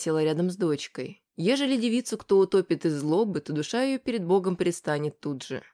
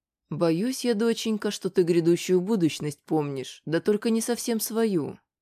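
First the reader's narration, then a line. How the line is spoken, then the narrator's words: Plain. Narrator (Russian): сказала Бажена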